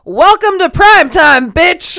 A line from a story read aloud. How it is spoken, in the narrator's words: while screaming